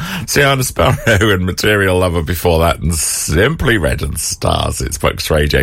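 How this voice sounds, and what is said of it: Usual voice. Nothing is said of it.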